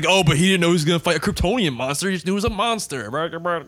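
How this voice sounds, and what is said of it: Mocking impression of defensive fans. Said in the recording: “That's my impression of people who defend BVS like on the internet.”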